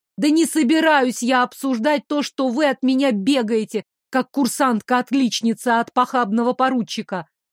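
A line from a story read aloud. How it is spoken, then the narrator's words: Barking, harsh. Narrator (Russian): рявкнула я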